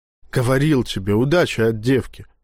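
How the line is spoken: Secretive night whisper. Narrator (Russian): шептал староста по ночам жене, когда считал, что дочь уже спит

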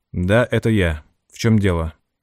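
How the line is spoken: Dry. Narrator (Russian): ответил сухо

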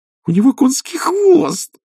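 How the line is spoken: Delighted squeal. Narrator (Russian): восторженно визжала Пердита

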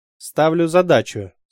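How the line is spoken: Calm and cold. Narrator (Russian): спокойно и холодно сказал лейтенант

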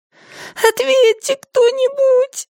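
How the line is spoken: Sobbing. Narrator (Russian): произнесла она между всхлипываниями

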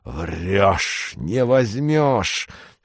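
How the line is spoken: Hoarse wheezing. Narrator (Russian): хрипел он

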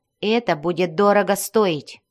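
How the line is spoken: Cold, suppressed emotion. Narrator (Russian): Стараясь ничем не выдать своего волнения, женщина привычно холодным тоном произнесла

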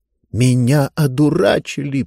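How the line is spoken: Hissing. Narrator (Russian): прошипела она

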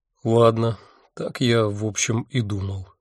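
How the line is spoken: Dejected voice. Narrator (Russian): упавшим голосом сказал я

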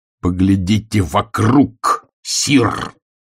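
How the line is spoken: Barked. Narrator (Russian): рявкнул Ваймс

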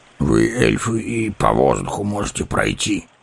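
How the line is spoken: Grumbling dwarf. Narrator (Russian): проворчал гном

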